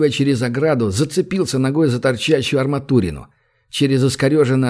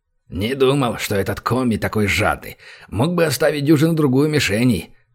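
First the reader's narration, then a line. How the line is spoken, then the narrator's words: Offended, breathless grumble. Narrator (Russian): обиженно буркнул Банг, отдышавшись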